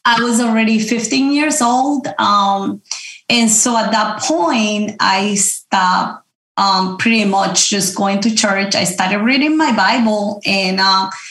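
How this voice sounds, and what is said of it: Noticeable accent. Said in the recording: “as you can hear the accent”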